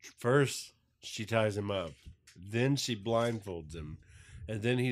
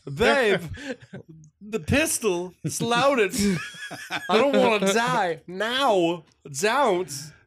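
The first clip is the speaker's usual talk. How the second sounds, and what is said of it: Imitates another person's voice. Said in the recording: “his Christopher Walken impersonation”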